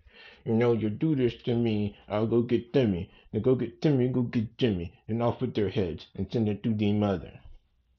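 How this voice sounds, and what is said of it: Imitates the Godfather character's voice. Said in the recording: “my godfather impression”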